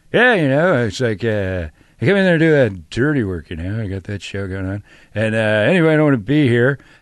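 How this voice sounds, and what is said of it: Impression of Norm Macdonald. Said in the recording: “my producer ... does an impression of you, Norm”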